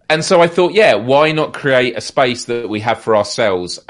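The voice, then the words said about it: Noticeable foreign accent. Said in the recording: “I'll stop commenting on your accent ... I'm the novelty”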